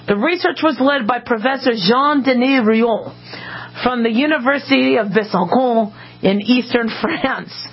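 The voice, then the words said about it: Put-on French accent. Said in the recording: “not too bad a French accent.”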